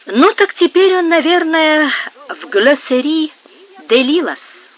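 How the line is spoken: Plain. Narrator (Russian): сказала она

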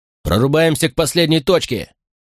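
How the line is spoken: Shouted. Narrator (Russian): крикнул я Ани

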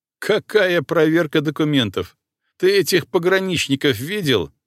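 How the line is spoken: Laughing. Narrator (Russian): рассмеялся Корнеев

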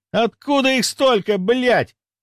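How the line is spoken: Shouting. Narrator (Russian): прокричал Саймон

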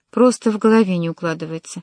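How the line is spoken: Calm. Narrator (Russian): спокойно сказала

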